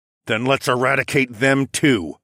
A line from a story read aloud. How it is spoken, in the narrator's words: I growled